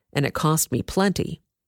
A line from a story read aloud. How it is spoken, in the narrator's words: the commander muttered